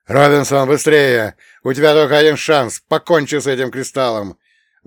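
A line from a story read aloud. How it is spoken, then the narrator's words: Shouted. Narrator (Russian): выкрикнул Бернс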